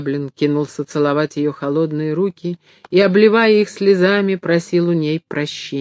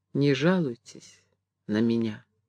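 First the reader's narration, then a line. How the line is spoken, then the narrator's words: Quiet, sad. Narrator (Russian): Она грустно улыбнулась и тихо сказала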